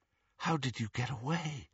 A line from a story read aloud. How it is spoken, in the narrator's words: Harry asked, and he was not surprised to hear himself whispering